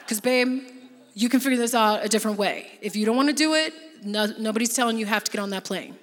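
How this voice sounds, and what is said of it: Imitating her partner's voice. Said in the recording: “whenever I talk like Joe, that's how I do his voice.”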